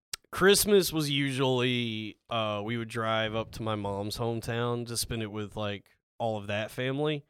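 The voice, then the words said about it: Texas accent. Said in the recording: “Love the rhythm of a Texas accent.”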